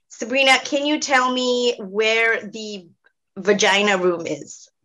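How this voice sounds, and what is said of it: Loud, strong American accent. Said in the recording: “he has a very strong American accent. And he goes point blank, super loud”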